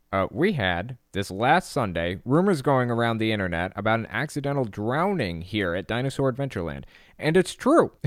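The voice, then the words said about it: Impression of Kent Hovind's voice. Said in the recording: “Let me see if I can do it in Hovind's voice ... Am I nailing it or am I just destroying it? Is this a good impression or a bad impression?”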